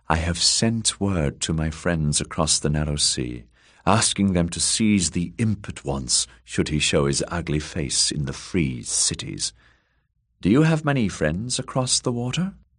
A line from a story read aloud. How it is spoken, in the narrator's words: that one said in her sultry, mearish tones